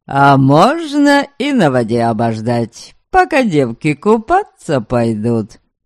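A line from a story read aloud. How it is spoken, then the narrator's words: Laughing voice. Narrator (Russian): Засмеялся кто-то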